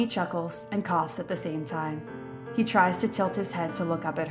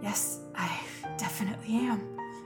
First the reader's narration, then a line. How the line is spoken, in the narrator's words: he mutters, voice barely audible